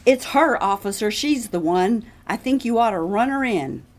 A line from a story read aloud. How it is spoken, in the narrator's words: Mallory, the owner of the house on the corner, hollered